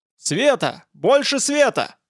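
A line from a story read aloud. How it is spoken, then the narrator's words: Wild shout. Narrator (Russian): крикнул кто-то из буйных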